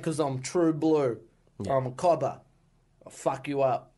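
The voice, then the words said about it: Put-on Australian accent. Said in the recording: “I will do an Aussie accent”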